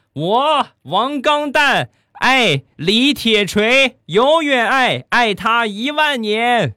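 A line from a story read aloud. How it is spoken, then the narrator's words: Boy shouting loudly. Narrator (Chinese): 男孩大声的喊道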